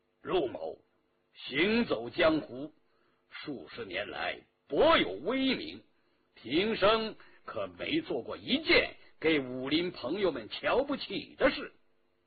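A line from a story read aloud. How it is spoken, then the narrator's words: Stern authoritative. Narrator (Chinese): 陆飞青冷冷地盯住了他，威严地说道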